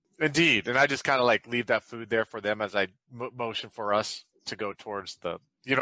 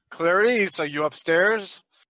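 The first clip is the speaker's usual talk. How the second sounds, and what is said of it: Charming put-on character voice. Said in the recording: “in my charming voice.”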